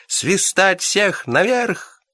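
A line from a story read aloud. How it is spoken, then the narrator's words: Cheerful ringing shout. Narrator (Russian): весело звонко крикнул помощник капитана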